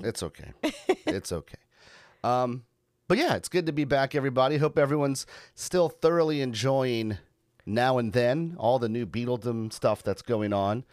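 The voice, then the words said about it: Low, husky sick voice. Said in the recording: “I've got whatever you had or some semblance of it. ... sultry, low, sexy voice”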